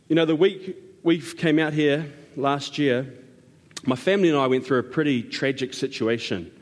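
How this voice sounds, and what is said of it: Foreign English accent. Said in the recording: “I have a different accent to you guys”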